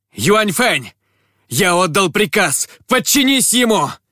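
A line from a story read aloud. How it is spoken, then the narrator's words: Emperor shouting. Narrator (Russian): небесный император крикнул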